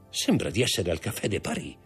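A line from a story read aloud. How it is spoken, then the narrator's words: Murmuring. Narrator (Italian): mormorò Danglars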